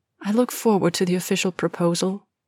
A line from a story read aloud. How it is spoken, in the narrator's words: Rose said quietly